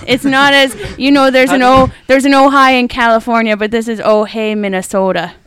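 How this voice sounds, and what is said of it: Minnesota accent. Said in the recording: “Oh, Minnesota. Okay, that accent.”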